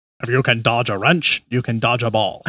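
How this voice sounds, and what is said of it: Imitates another person's voice. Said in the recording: “That was my Rip Torn impression.”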